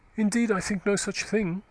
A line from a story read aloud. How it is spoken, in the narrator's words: she said haughtily